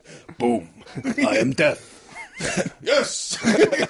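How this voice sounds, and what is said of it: Put-on Middle Eastern voice. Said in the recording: “Why has he got a Middle Eastern voice? ... We're doing a Saddam impression.”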